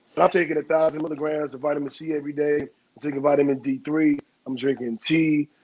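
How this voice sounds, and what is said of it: Very deep bass voice. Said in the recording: “That's why his voice sounds like that, y'all. ... It drops your bass like two tones lower. ... Oh, he got that Rick Ross.”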